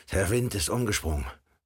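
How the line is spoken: Called out. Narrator (German): rief

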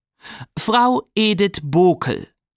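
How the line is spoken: Reading aloud. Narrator (German): las laut vor

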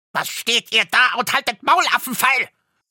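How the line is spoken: Dwarf screaming in fury. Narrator (German): schrie der Zwerg, und sein aschgraues Gesicht war zinnoberrot vor Zorn

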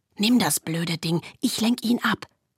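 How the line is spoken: Whispering. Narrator (German): flüsterte

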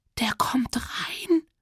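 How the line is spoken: Quiet panicked squeak. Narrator (German): quietschte ich, so leise man panisch quietschen konnte

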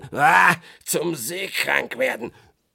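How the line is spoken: Grumbled. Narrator (German): brummte Blackbutt

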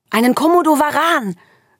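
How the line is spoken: Young brother calling out. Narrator (German): rief Navid, mein jüngster großer Bruder

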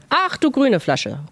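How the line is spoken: Male exclamation. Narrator (German): ruft er aus

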